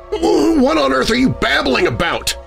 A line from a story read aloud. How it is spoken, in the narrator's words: I spat